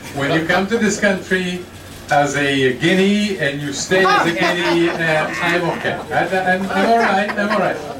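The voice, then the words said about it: Italian accent in English. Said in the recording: “I know I still have the accent”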